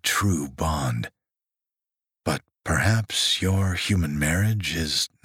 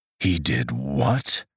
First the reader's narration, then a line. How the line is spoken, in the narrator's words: He growled, and she could feel his anger reverberating against her side